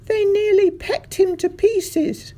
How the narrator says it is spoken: she was crying

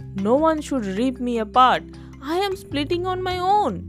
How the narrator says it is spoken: the cricket pleaded

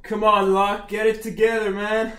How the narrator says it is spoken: I yell

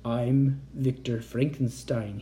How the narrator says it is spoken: he said in a whisper

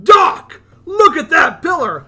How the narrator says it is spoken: pointing at it wildly going

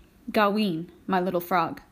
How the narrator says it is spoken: he said, pausing, his voice unusually gentle

